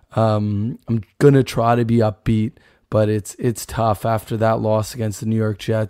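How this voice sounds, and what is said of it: Sick, altered voice. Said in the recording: “my voice is, of course, not sounding quite the same. I'm going through a bit of an illness here at uh, a little bronchitis”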